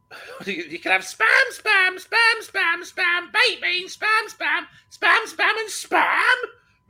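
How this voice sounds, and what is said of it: Sings, imitating a comedy record. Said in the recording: “I used to have the record that had it on. And it goes something like this ... That's my impression.”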